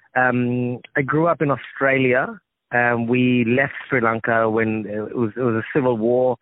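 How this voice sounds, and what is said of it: Australian accent. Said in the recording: “accent, is an Australian accent.”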